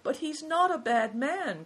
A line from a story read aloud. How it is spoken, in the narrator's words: cried Christian